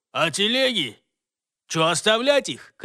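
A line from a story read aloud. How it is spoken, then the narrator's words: Shouting again. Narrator (Russian): крикнул кто-то еще раз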